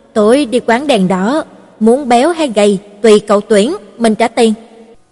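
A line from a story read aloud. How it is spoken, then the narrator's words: Laughing loudly. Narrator (Vietnamese): Ma Lạc Năng cười to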